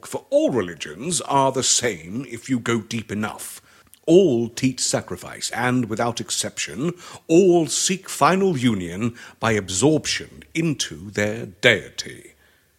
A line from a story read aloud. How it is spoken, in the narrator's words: he exclaimed